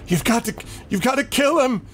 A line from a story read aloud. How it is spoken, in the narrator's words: this horrible shrieking about, yelling